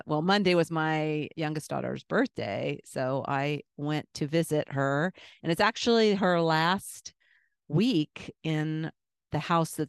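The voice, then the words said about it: Congested voice from a cold. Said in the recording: “my voice sounds a little coldy because my two-year-old grandson gave me a cold”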